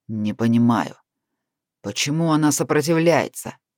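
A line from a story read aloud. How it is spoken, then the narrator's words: Angry voice. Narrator (Russian): Голос Натаниэля звучал зло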